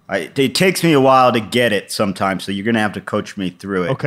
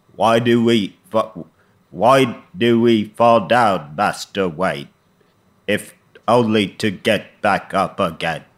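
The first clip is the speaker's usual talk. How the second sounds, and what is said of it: Imitates another person's voice. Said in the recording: “my Michael Caine impersonation ... It's a little lower.”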